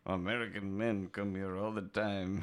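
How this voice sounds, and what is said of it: Put-on Ukrainian accent. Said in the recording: “That was a really good Ukrainian accent.”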